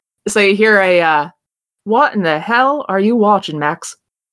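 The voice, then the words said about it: Put-on accent. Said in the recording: “oh god, I'm about to do an accent. Nobody make fun of me, please.”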